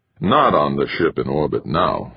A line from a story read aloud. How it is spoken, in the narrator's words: Hasdrabal said, his voice heavy and slow